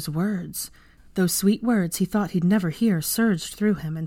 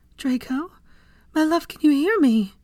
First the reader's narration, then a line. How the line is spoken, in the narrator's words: choked out